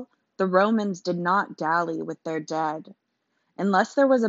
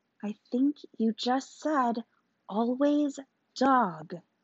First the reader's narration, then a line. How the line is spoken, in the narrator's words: Maggie whispered